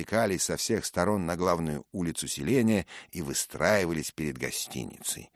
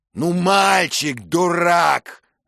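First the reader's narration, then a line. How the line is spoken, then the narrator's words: Shouted. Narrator (Russian): закричал рыцарь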